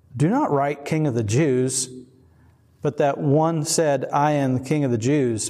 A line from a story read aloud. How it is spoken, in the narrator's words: Pilate answered